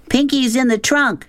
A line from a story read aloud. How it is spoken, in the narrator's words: she shouted